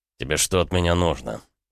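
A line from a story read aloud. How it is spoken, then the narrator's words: Cold. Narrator (Russian): холодно ответил Рома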